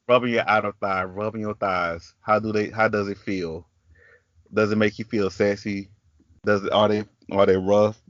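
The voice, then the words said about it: Country accent. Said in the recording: “my country accent ... in my own special little accent”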